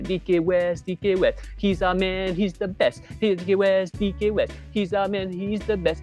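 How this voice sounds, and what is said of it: Sings in a Malay accent. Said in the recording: “If I sing it in a very Malay accent,”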